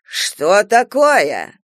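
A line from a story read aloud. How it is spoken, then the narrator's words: Doctor's indignant shriek. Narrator (Russian): возмущенно заверещал доктор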